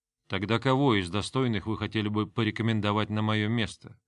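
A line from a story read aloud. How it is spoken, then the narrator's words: Insinuating, silky. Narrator (Russian): вкрадчиво поинтересовался Грон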